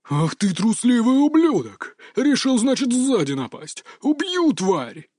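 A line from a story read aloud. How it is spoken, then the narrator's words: Furious roar. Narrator (Russian): взревел он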